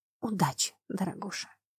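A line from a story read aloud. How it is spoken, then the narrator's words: Whisper in the ear. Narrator (Russian): шепнула мне на ухо Аделаида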